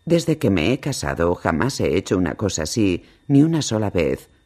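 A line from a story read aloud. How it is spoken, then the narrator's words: Apologetic tone. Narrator (Spanish): dijo en tono de disculpa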